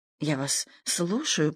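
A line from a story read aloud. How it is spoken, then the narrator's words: Muttered. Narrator (Russian): пробормотал он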